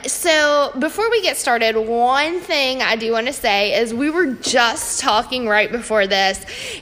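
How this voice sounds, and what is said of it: Thick regional accent. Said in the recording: “why I have such a thick accent”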